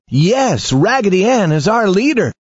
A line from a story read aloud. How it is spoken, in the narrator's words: All the other dolls smiled and shouted